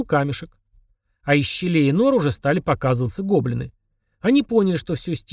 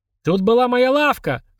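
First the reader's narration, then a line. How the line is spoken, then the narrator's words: Anguished goblin shout. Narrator (Russian): с надрывом крикнул один гоблин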